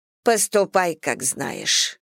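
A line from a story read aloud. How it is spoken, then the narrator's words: Muffled reply. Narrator (Russian): глухо отозвалась миссис Бантинг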